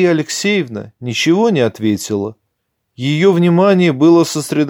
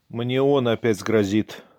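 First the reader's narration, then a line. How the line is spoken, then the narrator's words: Dry, holding back tears. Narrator (Russian): сухо промолвил сын, еле удерживая вновь нахлынувшие слезы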